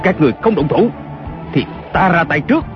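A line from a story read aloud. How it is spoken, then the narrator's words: Shout. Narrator (Vietnamese): Kiều Phong lại quát lên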